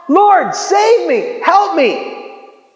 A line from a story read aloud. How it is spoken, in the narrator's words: He cried out